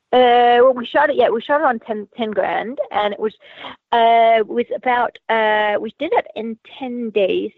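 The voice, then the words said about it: Zimbabwean accent with Australian influence. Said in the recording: “you have an interesting accent... Initially from Zimbabwe in Africa via Australia... I don't think I've ever heard anyone with quite the same accent.”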